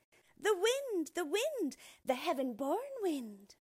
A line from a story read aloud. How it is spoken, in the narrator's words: the children called back gaily, with their mouths crammed full